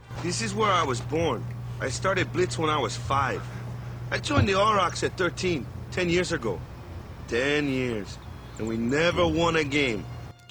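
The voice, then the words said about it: Bad Boston Jamaican accent, Wakka. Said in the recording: “Jake the Dog doing this horrible Boston Jamaican accent. It's the worst.”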